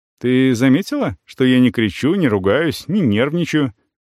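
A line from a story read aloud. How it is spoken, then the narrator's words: Carefully neutral tone. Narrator (Russian): спрашиваю максимально нейтральным тоном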